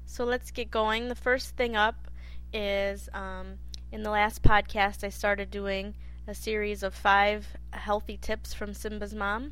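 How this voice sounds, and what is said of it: Slightly hoarse, congested voice. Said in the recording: “I'm feeling a little under the weather, so if my voice sounds a little funnier than usual, I think I'm coming down with a cold. Had a bit of a sore throat”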